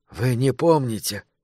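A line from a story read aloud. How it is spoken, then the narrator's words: Quiet question. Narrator (Russian): тихо спросил Кристофер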